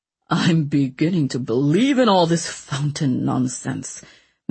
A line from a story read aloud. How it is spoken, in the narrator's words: Mancini grumbled nastily, having partially recovered from his shock